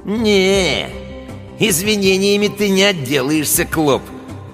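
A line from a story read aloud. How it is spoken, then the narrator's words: Smirking drawl. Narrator (Russian): протянул Гусиныч, ухмыляясь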